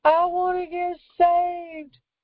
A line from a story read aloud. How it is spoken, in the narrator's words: screamed